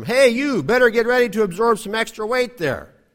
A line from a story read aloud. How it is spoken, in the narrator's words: As I started falling, my left arm shouted to my right arm